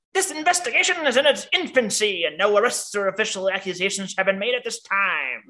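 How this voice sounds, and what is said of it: Old-timey 1800s-style voice. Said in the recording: “See, that was a good 1800s voice.”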